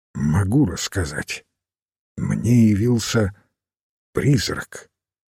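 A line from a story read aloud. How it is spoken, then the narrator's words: Quiet voice. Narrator (Russian): тихим голосом произнес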